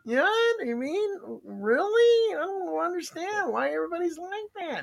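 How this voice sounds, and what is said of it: High-pitched whiny old lady voice. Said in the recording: “the perfect old lady whiner ... She's a whiner. She's got that voice. You mean like this? ... that all high whiny voice.”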